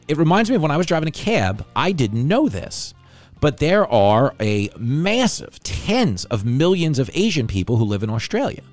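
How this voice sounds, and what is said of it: New York Bronx accent. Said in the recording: “I love his accent because it's like mine ... where we're from ... our accent ... me and ... sound like two guys who are selling TVs on the Cross Bronx Expressway”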